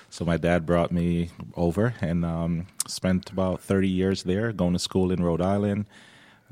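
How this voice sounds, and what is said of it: Slight accent. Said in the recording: “I detected yeah. a little bit of an accent”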